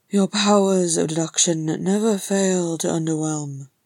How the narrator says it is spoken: Thorin grunted

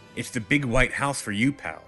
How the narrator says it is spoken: she snarled

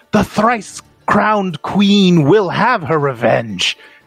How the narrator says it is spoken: she just screams and she says

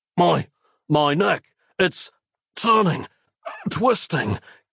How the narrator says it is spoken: gasped Nick

